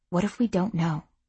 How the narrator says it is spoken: She whispered

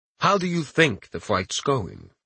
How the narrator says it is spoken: Nexus asked in the smooth, cultured voice that he had first spoken in

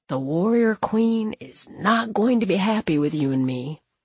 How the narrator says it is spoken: he whispers

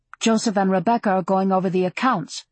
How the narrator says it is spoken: she said

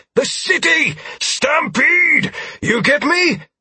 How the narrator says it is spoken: Martell shouted

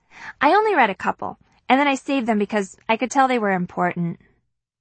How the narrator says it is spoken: Hastily, she adds

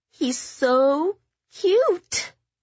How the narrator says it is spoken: Kitty cooed at the wriggling infant

